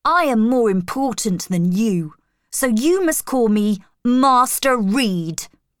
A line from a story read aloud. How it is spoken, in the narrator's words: said angrily